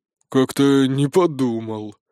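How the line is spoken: Regretful raven grumbling. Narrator (Russian): с сожалением проворчал ворон

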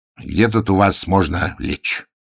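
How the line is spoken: Gloomy question. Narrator (Russian): спросил он мрачно

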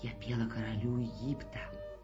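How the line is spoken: Whisper. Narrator (Russian): Она ему прошептала

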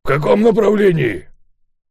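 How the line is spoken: Shouting. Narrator (Russian): крикнул ему Волк Ларсен

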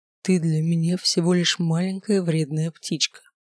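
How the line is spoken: Whispered close to ear. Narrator (Russian): прошептал он, близко склонившись к моему уху

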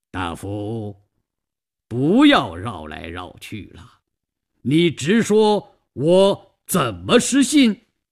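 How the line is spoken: Slight smile. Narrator (Chinese): 关公微微一笑

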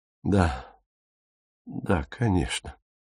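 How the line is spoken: Muttering. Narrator (Russian): пробормотал он

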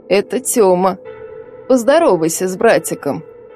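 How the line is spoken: Creaky old woman. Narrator (Russian): проскрипела старуха

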